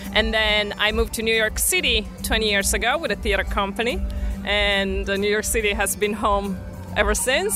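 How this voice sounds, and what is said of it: Speaks with a foreign accent. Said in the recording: “your accent's awesome”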